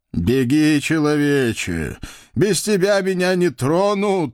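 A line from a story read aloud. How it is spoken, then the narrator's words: Breathless groaning fat man. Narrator (Russian): Едва дыша простонал толстяк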